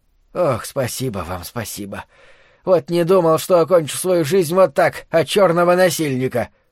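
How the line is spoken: Hoarse old man. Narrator (Russian): прохрипел старик

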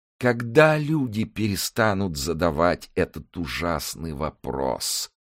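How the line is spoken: Groaned. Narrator (Russian): простонал он

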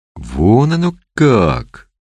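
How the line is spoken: Amazed drawl. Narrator (Russian): изумленно протянул Борис

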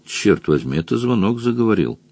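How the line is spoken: Grumbling wizard. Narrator (Russian): заворчал волшебник

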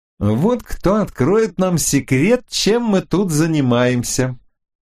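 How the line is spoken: Triumphant. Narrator (Russian): Торжествующим тоном произнесла она

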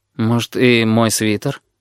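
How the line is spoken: Timid. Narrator (Russian): робко говорит лорд

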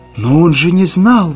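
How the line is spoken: Exclamation. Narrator (Russian): воскликнула Кэрол

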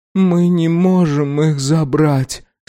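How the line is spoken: Dead flat voice. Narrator (Russian): сказала Сайра мертвым голосом

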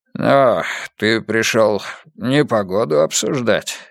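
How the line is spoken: Hoarse. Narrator (Russian): хрипло сказал он

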